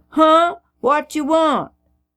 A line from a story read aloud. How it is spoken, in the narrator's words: some children today who would have hollered